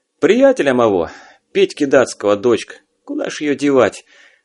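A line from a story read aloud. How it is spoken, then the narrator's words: Resigned sigh. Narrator (Russian): обреченно вздохнул Алексей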